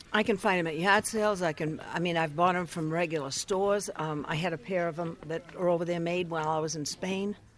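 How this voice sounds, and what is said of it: Maine accent. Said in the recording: “Don't be fooled by her Maine accent.”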